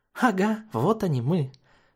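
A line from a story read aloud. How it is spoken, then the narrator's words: Joyful unicorn exclamation. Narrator (Russian): радостно воскликнул голубой единорог Дэвида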